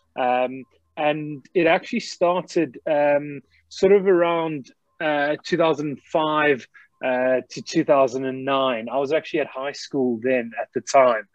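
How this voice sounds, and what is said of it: Slight South African accent. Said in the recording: “as you can probably pick up by the accent straight away, I've actually got a bit of a South African twang.”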